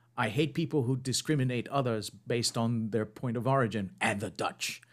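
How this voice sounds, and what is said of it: Poor imitation of another person's voice. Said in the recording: “the most terrible Michael Caine impression I've ever done”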